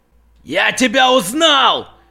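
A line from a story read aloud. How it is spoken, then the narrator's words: Shouting ragged man. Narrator (Russian): кричал оборванец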